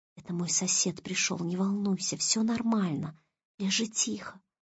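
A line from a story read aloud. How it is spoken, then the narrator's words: Whisper. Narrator (Russian): прошептал ей Олег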